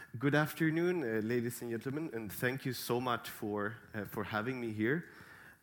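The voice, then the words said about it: Voice slightly affected by a cold. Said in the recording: “I have a little bit of a cold”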